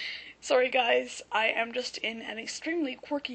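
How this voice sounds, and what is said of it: Usual voice. Nothing is said of it.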